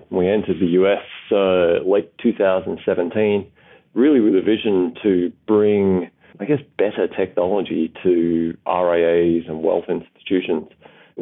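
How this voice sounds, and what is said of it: Australian accent. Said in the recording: “as you can tell by the accent already, Practify is a business that emanated out of Australia”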